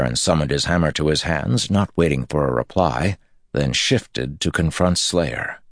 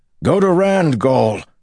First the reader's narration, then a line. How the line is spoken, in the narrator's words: Perrin roared